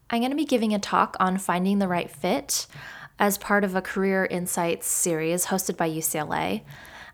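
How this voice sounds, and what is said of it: Slightly off, sick-sounding voice. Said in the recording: “my voice sounds a little off ... feeling very under the weather”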